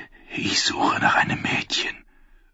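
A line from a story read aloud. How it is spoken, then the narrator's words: Whisper between sips. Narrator (German): flüsterte zwischen den Schlucken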